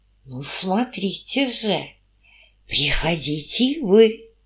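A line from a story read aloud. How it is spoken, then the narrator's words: Commanding whisper. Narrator (Russian): властно шепнул Воронецкий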